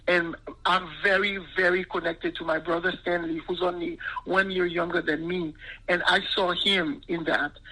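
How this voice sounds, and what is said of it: Voice breaking with emotion. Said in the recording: “now, just now talking about it, I'm losing my voice.”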